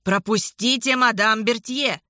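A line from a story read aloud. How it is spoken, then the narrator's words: Shouting. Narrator (Russian): Эммануэль крикнул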